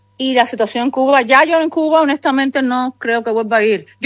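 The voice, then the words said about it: Cuban Spanish accent. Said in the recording (Spanish): “Yo llevo Cuba conmigo, ojo, la llevo en mi acento”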